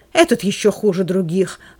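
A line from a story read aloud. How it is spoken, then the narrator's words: Exclaiming vile buffoon. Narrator (Russian): воскликнул Элиазар, гнусный фигляр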